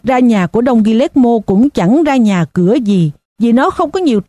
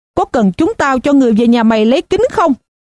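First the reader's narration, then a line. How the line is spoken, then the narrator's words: Shout. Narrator (Vietnamese): một người khác hét lên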